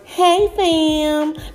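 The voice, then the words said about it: Imitates another person's voice. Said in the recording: “in my Angela Yee voice. ... That's the best I can do. I know it sucks”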